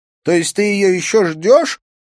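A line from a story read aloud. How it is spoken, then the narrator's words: Shouted. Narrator (Russian): выкрикнула она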